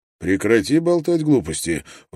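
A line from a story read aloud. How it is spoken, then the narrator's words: Cheerful chuckle. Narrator (Russian): он весело хмыкнул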